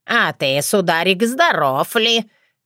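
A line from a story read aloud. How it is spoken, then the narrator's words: Displeased grumble, imitating crone. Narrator (Russian): недовольно проворчала я, копируя ягуню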